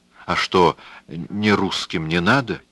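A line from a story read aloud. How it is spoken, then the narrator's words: Glum joke. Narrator (Russian): уныло сострил он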